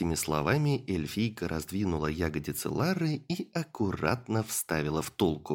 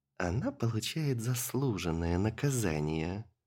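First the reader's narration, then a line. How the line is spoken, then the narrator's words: Purring. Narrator (Russian): промурлыкала Илона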